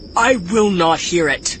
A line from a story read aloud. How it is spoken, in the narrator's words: Akoba snapped